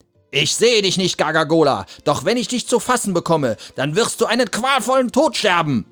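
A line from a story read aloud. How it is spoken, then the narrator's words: Shouting outward. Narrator (German): schrie er den Bäumen entgegen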